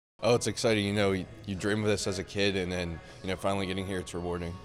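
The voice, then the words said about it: Slight Pittsburgh accent. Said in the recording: “he's from right outside of Pittsburgh. You can kind of hear it, kind of hear the accent a little bit.”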